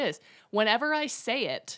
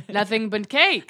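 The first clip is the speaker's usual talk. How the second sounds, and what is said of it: Made-up comic accent. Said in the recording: “I feel like I'm doing the accent, the like made-up accent that John Mulaney and Nick Kroll do in Oh Hello”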